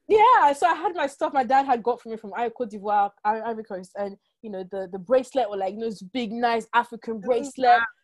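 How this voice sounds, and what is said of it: French-influenced accent in English. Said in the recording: “my accent, I might say, oh, the person doesn't understand me, because also I have a French background. So there are some words that I struggle with. I don't hear the difference between ship and ship”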